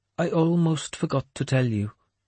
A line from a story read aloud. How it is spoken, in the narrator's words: he went on calmly